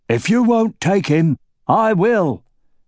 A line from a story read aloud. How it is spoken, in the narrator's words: bellowed Horst